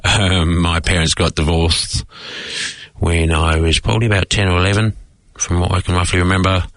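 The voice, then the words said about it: British accent. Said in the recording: “As you can probably tell from my accent, I was born in the UK.”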